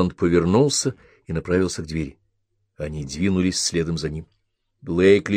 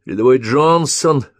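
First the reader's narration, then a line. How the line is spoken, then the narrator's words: Authoritative bark. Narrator (Russian): рявкнул Блейкли, старавшись вложить в свой голос как можно больше властности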